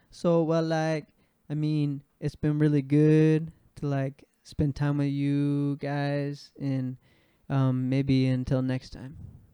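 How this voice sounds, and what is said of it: Impression of a Thai friend. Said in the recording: “do an impression of our good Thai friend”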